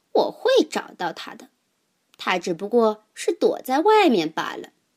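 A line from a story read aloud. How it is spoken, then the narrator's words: Mocking tone. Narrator (Chinese): 猫带着嘲笑的口气说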